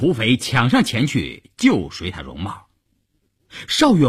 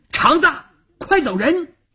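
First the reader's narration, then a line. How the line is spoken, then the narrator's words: Shouted. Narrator (Chinese): 邵月这么一喊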